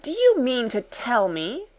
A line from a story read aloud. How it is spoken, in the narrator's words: cried out